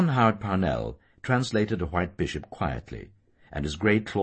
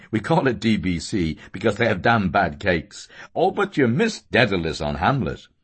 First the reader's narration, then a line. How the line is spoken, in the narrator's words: he said, laughing